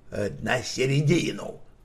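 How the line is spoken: Grumbled. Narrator (Russian): буркнул он

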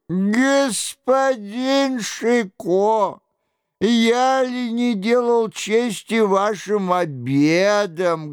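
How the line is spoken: Sobbing. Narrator (Russian): говорил он, всхлипывая

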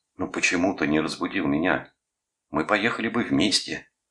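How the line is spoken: Harsh hoarse voice. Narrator (Russian): жестко хриплым голосом сказал Рудольф

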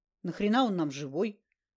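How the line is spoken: Grumbled. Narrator (Russian): буркнул Караед

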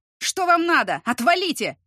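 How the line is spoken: Roar. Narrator (Russian): взревел

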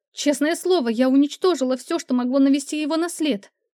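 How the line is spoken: Desperate cry. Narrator (Russian): В отчаянии вскрикнула она

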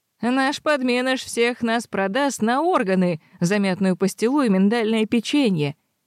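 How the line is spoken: Giggling. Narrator (Russian): хихикал Алан

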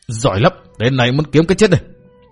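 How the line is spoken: Furious shouting. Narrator (Vietnamese): Túc Xá giận dữ đến lồng lộn, quát tháo

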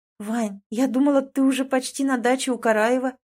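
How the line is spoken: Confused reply. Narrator (Russian): растерянно отзываюсь

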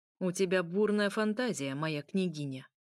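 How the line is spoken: Even colder, icy voice. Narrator (Russian): еще более холодно произнес светлый князь

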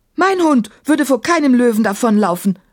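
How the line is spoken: Called out. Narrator (German): rief Emma

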